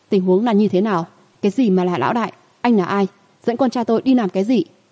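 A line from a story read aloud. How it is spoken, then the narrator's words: Angry, suspicious questioning. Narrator (Vietnamese): Cô có vẻ mặt trong tức giận, mang theo nghi hoặc ngăn lại hỏi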